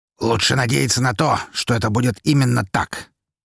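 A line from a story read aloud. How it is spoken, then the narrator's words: Harsh tone. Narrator (Russian): жестким тоном проговорил Лазарев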